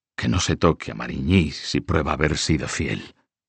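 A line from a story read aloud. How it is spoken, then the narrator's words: Tired voice. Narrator (Spanish): dijo con voz cansada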